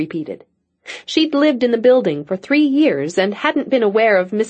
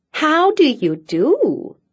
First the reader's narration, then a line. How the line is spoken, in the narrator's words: her neighbor cooed sweetly